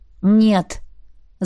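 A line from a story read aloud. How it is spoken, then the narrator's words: Youngest, angry exhale. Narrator (Russian): Зло выдохнул младшенький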